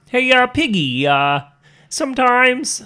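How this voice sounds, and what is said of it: Kermit the Frog character voice. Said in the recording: “in your Kermit voice”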